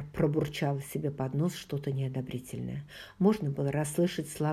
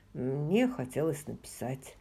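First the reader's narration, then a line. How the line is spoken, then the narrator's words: Plain. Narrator (Russian): ответил он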